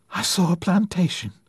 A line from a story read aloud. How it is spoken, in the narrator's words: gasped